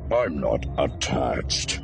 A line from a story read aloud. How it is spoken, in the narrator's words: he rasped